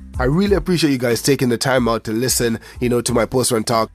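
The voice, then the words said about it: Voice altered by flu. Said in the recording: “my voice sounds a little bit different. It's like I have some flu-like symptoms”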